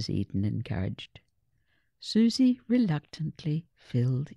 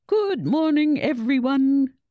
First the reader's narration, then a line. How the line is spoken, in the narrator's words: boomed the headmaster's cheery voice over the school's PA system